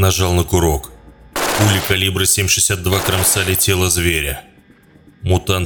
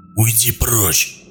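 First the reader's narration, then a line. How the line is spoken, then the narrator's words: Hoarse croak. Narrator (Russian): прохрипел сталкер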